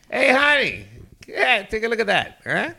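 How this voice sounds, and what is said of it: Imitates another person's voice, Boston accent. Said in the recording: “like in his voice, like ... I don't know what accent that was. That was Boston.”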